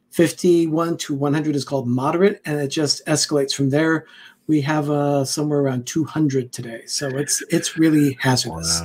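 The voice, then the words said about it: Slightly raspy voice. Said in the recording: “my voice is a little raspy ... That's just from the smoke”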